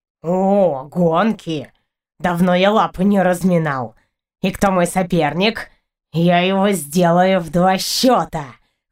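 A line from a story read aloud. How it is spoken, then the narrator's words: Boastful cat's meow. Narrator (Russian): Хвастливо мявкнул Партур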